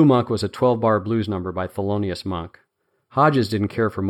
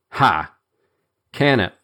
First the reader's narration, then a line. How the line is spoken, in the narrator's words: said Hodges harshly